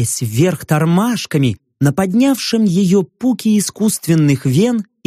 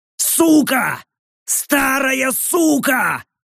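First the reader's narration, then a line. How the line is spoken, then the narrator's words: Yelling man. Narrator (Russian): заорал мужик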